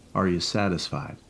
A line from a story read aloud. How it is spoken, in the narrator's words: he asked